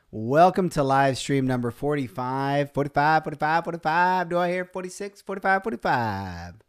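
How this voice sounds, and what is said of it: Fake auctioneer voice. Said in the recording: “I do a fake auction voice kind of a thing”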